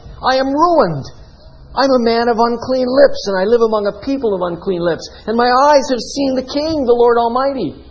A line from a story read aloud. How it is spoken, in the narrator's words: cried